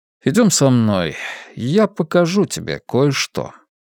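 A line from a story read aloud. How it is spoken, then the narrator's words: Soft. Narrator (Russian): мягко сказал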